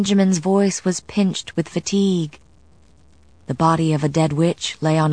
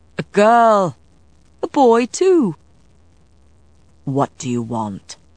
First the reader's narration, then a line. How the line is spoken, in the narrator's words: The question was expressed calmly, but Matthew was seething inside